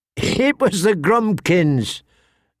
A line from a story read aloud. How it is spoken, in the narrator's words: Tyrion told him, laughing